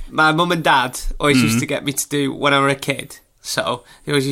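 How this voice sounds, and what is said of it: Usual voice. Nothing is said of it.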